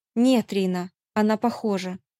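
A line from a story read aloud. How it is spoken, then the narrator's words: Grim. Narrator (Russian): мрачно проговорила я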